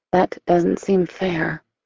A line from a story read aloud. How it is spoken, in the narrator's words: I say softly